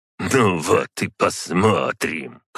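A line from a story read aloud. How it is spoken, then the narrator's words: Muttered snort under breath. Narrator (Russian): хмыкнула себе под нос ликомора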